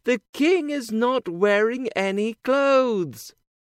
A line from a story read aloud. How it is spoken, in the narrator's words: everyone shouted together